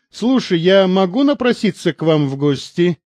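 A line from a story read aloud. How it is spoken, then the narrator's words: Asking after laughing. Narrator (Russian): отсмеявшись, спросила она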